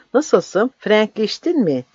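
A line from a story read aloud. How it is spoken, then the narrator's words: Said then laughed. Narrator (Turkish): dedi ve güldü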